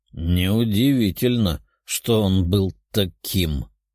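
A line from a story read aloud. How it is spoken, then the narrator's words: Heavy sigh. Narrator (Russian): Демон тяжело вздохнул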